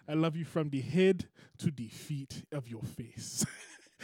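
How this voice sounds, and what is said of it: Put-on African accent. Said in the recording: “what is that accent? ... His girlfriend's African.”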